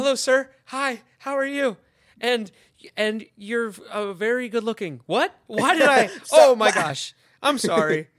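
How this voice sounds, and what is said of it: Voice rising higher and higher. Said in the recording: “My voice just keeps getting higher and higher and higher ... Start becoming Mickey Mouse all of a sudden.”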